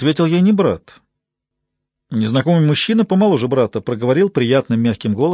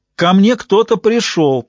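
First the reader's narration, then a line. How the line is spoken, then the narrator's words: Shout. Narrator (Russian): прокричала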